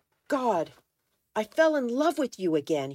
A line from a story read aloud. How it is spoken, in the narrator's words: he cried